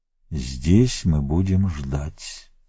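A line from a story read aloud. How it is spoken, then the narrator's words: Soft rustling whisper. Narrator (Russian): тихо прошелестел голос правителя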